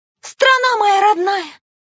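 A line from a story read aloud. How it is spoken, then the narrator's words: Muffled sobbing. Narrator (Russian): Она закрыла рот руками, чтобы рыдания не привлекли внимания стражника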